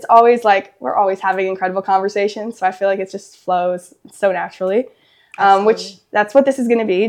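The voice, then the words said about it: Weak, recovering voice. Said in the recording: “My voice is coming back slowly... Just my voice is taking a minute to catch up.”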